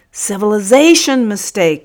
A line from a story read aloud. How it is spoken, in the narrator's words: roared Busuku